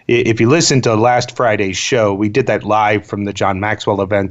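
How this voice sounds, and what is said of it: Much deeper, tired-sounding voice. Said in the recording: “my voice is about two octaves lower, that is just sheer passion and exhaustion coming through”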